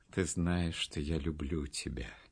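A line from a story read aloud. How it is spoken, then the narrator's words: Tender. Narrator (Russian): сказал он ласково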